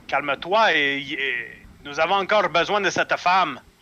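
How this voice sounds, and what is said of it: Put-on Spanish accent. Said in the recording (French): “Avec son accent espagnol”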